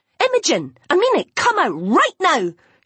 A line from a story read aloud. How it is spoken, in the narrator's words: she screamed